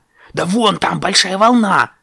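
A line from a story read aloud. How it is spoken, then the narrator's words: Shouted. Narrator (Russian): крикнул он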